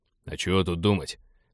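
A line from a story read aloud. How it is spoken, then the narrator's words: Grumbled. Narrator (Russian): проворчал командир абордажников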